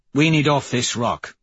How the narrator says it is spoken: Severo says gruffly

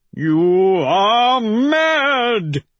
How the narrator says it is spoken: he howls

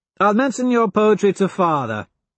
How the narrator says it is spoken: Cassius laughs

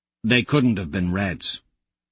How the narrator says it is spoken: I say bitterly

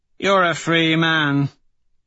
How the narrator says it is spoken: Severo slurs

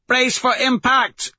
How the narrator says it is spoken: Mustang shouts over it

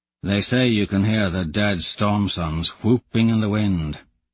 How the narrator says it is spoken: he mutters

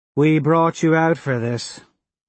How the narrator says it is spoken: Harmony sighs

